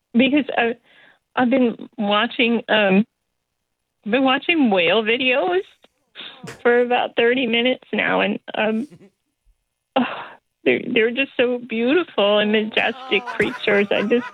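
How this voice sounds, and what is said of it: Tearful voice after crying. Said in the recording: “I sound terrible. ... I've been crying.”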